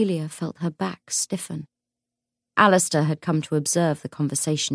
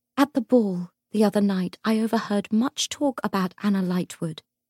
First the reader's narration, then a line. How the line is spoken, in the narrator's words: said Sonar